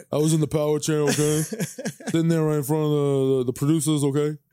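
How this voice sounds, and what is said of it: Impression of Mike Francesa. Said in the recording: “That's how Francesa handled it. ... That was a pretty good impression, too. ... that wasn't bad, though. I got who it was”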